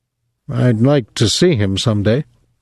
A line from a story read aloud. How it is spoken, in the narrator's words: Rudolph said stiffly